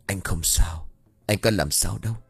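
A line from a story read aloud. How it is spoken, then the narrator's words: Quiet voice. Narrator (Vietnamese): Trành lại tiếp tục nhỏ giọng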